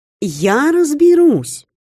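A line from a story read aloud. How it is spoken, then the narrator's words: Cheerful promise. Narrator (Russian): Бодро пообещала Слася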